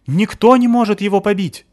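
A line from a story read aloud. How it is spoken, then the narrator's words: Yell. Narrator (Russian): завопил Мишка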